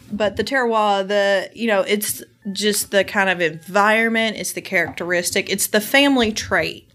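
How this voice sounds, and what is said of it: American country accent. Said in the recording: “my country accent butchered that”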